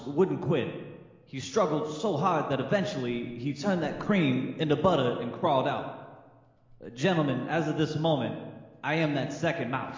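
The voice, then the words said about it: Christopher Walken impression. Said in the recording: “That's about as good a Christopher Walken as I can do for a whole paragraph ... the longer you do a Christopher Walken impression, it starts to trail off.”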